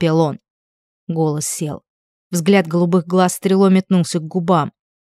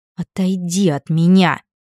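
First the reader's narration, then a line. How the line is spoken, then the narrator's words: Through gritted teeth. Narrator (Russian): процедила она сквозь зубы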